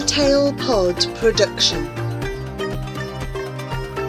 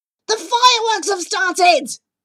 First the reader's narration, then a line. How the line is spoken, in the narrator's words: shouts Jivan